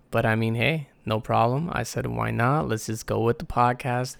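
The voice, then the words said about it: Strained, worn-out voice. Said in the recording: “I was actually just doing some singing, and my voice is a little fucked.”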